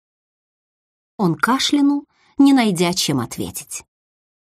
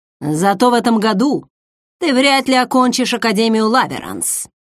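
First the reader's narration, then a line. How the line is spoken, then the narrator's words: Snapping back. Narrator (Russian): огрызнулся Хелрой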